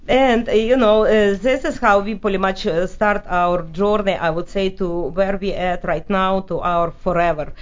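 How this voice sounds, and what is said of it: Heavy Russian accent. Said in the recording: “you can probably hear my Russian accent still very heavy”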